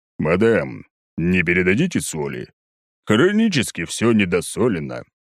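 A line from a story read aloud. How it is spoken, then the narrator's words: Languid low bass. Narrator (Russian): томным баском произносит вражонок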